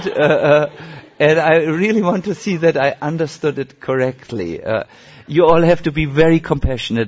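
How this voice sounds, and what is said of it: Non-native English accent. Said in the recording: “I'm not the only one here with an accent ... I'm not so good in English”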